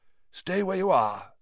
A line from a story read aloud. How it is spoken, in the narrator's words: he said in the same hoarse voice